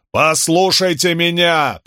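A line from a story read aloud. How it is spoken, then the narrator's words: Shouted. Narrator (Russian): прокричал он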